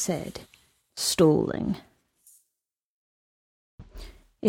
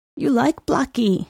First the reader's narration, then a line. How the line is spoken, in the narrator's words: said, a quaver in his voice